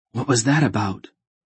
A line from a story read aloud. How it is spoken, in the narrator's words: Geryon whispered